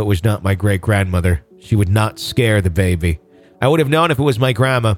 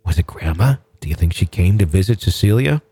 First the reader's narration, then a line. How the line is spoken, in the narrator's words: She continued in a hushed whisper